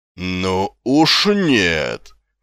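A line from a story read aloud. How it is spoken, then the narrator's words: Triumphant exclamation. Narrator (Russian): победоносно воскликнула госпожа Овниц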